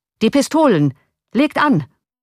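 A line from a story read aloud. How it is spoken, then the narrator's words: Shouted command. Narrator (German): rief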